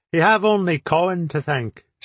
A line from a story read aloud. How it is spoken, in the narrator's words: said Gilheeny